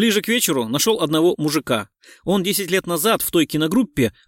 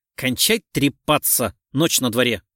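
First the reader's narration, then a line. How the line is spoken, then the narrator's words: Angry interruption. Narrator (Russian): Сердито перебил его Гуров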